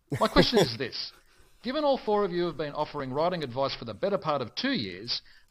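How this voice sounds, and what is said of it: Australian accent. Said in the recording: “as you can probably tell by my Bonza accent, like Jed, I also hail from sunny Australia, though from Melbourne”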